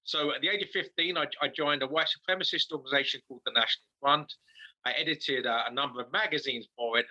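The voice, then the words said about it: English accent. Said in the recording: “my native England ... As you may have gathered from my accent, I'm not from this side of the pond.”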